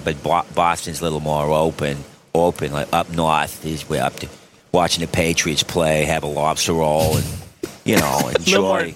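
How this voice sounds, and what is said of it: Nasal put-on Boston accent. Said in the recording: “A little more nasal ... Lobster roll puts me into that Boston, you know, kind of accent”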